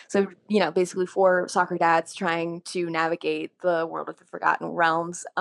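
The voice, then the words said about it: Gruff stepfather character voice. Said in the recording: “You don't have to do Ron's voice right now. You can just do your normal voice if you want to.”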